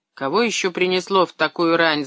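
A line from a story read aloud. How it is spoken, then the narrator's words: Grumbling. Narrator (Russian): заворчала на кровати Александра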